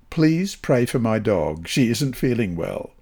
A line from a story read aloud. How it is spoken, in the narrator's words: the boy added seriously